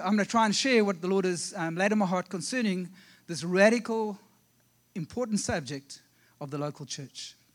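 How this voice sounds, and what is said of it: South African accent. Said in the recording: “with all my South African accent”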